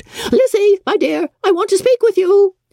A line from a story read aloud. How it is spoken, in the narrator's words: Bennet called out